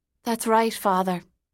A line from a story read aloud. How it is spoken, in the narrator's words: Katie said with a sigh